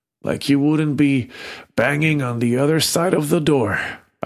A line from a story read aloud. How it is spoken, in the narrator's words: I croaked